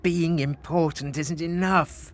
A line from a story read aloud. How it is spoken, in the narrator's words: moaned Frederick